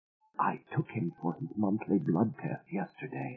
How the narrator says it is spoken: Aida whispered

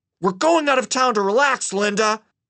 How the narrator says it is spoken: he replied through clenched teeth in a tone that was anything but relaxed

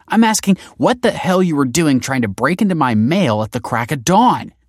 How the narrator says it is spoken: she snapped

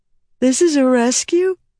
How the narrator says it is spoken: Rita yawned, too enervated

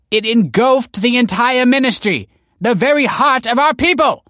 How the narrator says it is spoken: exclaimed the teacher

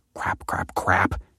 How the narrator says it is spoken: she muttered

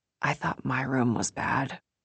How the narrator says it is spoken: Molly whispers to me

